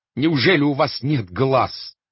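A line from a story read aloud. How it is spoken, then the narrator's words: Shouting. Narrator (Russian): кричал астроном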